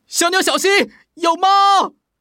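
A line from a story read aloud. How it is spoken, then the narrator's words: Urgent shout. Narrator (Chinese): 彼得马上大叫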